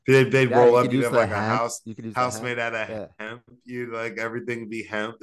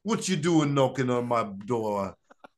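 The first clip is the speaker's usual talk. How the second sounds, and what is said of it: Put-on Jamaican accent. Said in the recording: “pick up an accent ... Here comes the rude boy Jamaican.”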